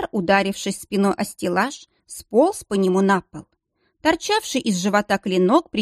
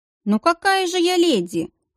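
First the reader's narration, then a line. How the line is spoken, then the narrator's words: Chuckle. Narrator (Russian): хохотнула Натина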